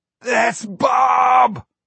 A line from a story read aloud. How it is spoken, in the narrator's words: Rocky yelled exultantly